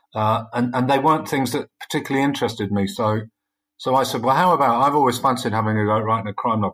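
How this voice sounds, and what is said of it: Non-Newcastle English accent. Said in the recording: “as you can probably tell from my voice, I'm not from Newcastle originally.”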